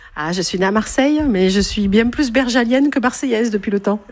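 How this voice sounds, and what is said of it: Regional French accent. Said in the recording (French): “votre bel accent berjalien ... l'accent”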